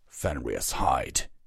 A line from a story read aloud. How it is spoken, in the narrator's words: he growled